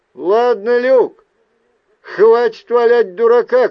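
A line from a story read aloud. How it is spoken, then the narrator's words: Shout. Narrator (Russian): крикнул я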